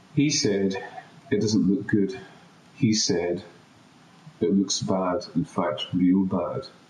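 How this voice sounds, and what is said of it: Scottish accent. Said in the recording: “my funny Scottish accent”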